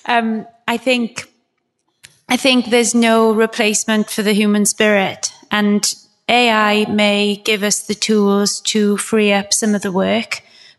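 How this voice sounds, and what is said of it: Welsh accent, words deliberately spaced. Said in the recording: “That British accent. ... It's Welsh, actually. So it's a bit dodgy. ... I'm consciously trying to space my words so you can understand me.”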